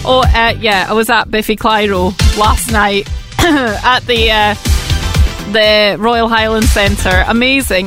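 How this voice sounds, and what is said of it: Slightly croaky voice. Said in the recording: “my voice was just a little bit croaky this morning”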